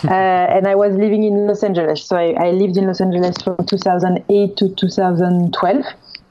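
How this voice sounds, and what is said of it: French accent. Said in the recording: “I'm French, if by my accent you couldn't tell”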